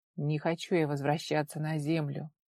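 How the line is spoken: Muffled, hollow voice. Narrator (Russian): глухо проговорил он

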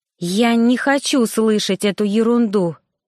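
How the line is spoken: Hoarse, weak. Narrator (Russian): прохрипела, потому что подкосились ноги

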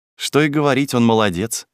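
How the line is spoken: Angry smirking speech. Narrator (Russian): сказал Максим, зло усмехаясь

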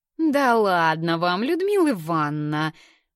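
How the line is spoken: Sing-song, young woman. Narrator (Russian): Нараспев произносит девушка с первой парты

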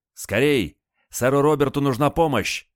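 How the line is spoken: Shouting. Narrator (Russian): почему-то закричал он

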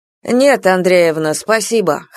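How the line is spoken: Wry hmph. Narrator (Russian): хмыкнул фельдшер

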